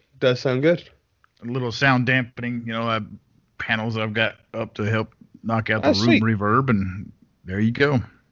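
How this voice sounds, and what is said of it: American accent. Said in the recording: “sounds very American ... my American accent”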